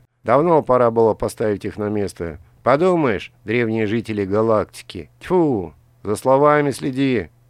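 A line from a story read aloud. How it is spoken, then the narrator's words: Menacing. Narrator (Russian): грозно сказал Моа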